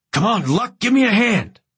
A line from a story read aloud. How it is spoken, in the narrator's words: shouting at me